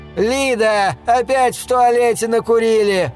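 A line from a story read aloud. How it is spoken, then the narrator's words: Distant shout. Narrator (Russian): крикнули с коридора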